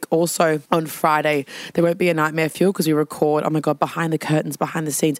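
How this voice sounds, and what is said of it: Hoarse, sick, nearly lost voice. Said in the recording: “Sorry I'm sick... my voice, as you can hear, is almost gone”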